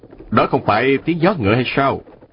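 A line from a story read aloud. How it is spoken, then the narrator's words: Smiling. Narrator (Vietnamese): Ông mỉm cười nói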